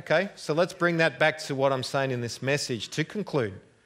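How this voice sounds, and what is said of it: Australian accent. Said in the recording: “I hope you've understood my accent. I'm not quite as bad as Crocodile Dundee.”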